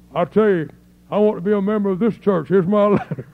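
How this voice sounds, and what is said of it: Gruff imitated voice. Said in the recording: “in his gruff voice”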